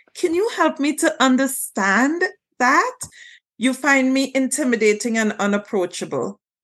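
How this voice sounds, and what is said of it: Social worker style voice. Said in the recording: “in my best social work voice”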